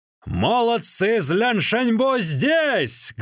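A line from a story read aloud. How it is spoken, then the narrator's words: Thunderous shout. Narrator (Russian): громовым голосом крикнул в окно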